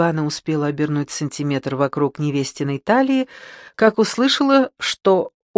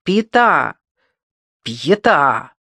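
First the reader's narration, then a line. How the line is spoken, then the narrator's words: Irritated calling. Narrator (Russian): раздраженно позвал Николас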